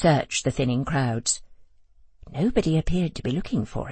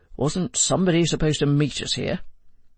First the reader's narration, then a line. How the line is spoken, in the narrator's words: said Joe, irritably